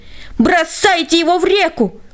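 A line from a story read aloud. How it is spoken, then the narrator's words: Crowd yelling. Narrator (Russian): они все завопили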